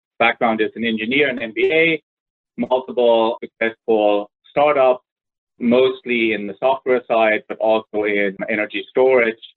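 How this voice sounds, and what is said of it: German accent. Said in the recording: “So easily detected by the accent ... I'm originally German”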